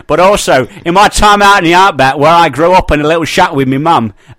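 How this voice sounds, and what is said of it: Put-on Australian accent. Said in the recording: “Australian accent”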